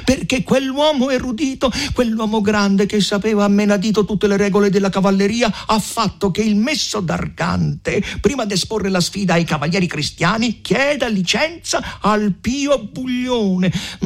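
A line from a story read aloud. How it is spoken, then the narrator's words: Yelling. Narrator (Italian): riprese a urlare il conte Attilio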